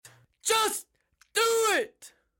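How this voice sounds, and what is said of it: Screaming very loudly. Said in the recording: “Why are you screaming? ... It's just ... screaming things as loud as he can into his microphone.”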